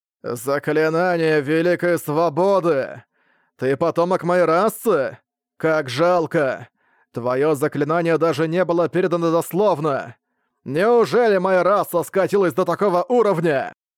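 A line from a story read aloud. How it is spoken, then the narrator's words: Plain. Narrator (Russian): Цэньму спросил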